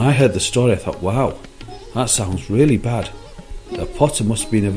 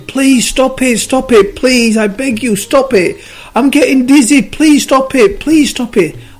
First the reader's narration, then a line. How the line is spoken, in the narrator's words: the clay started screaming again